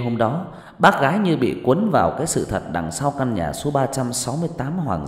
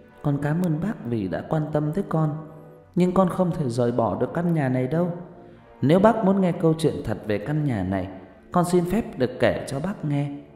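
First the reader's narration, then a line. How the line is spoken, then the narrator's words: Soft. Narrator (Vietnamese): Màn Ơ Cành khẽ nói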